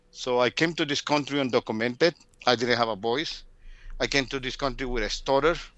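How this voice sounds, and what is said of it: Latino-accented English. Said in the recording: “I can speak English with a very sexy Latino accent”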